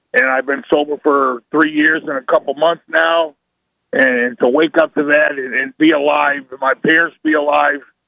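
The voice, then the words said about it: Slightly raspy voice. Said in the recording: “my lungs are, you know, they're probably about 90% now. A little raspy.”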